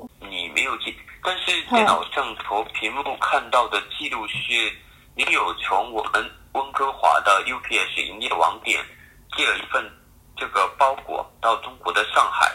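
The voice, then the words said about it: Heavy accent in Mandarin. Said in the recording (Chinese): “因为他真的口音有点重”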